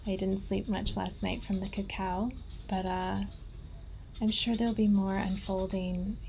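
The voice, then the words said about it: Tired voice. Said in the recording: “I'm a bit tired. Maybe you hear it in my voice.”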